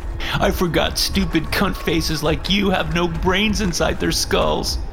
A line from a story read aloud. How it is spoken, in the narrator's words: Kevin said, laughing